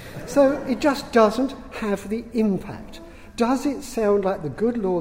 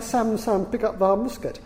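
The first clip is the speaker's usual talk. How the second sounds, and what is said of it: Put-on Yorkshire accent. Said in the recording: “it sounds better in a Yorkshire accent.”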